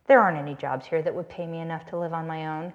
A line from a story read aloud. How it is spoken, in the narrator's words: Catherine said bitterly